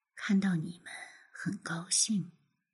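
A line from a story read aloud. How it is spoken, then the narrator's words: Soft, gentle. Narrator (Chinese): 他轻声说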